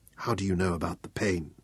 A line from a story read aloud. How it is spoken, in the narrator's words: she whispered back